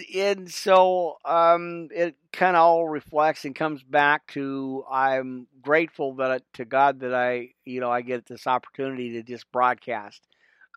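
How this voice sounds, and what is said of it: Stuffy, congested voice. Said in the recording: “I'm a little stuffy. I've got a little bit of a cold going on ... and a little bit of cough”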